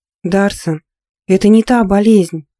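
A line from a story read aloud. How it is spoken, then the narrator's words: Soft. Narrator (Russian): мягко заговорила Надя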